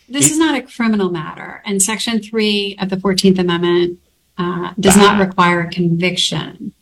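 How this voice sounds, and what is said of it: Youthful Valley Girl upspeak. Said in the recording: “She sounds like a freaking teenager... the accent of the young in this country? We used to call it the Valley Girl... Where you end every statement like a question?”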